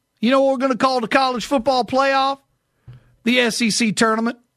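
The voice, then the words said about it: Put-on Southern US accent. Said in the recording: “Doing my best Southern accent because I'm mimicking a buddy of mine ... you're doing pretty good”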